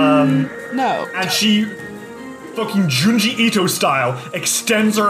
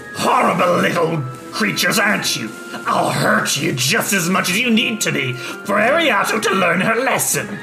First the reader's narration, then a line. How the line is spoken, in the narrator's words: Scarja snarls and says